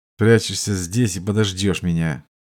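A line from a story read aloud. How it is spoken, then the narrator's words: Undertone. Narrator (Russian): Кольбер вполголоса произнес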